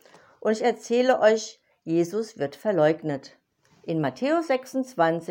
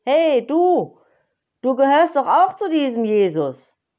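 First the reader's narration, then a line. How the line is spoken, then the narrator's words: Cheeky call. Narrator (German): Sie stellte sich frech vor ihn hin und rief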